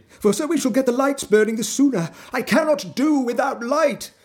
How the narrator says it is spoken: he panted

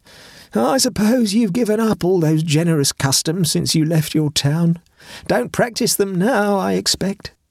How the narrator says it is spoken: exclaimed, with a thin sneer ringing meaningly through his words

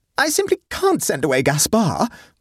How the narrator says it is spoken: wailed Sophie

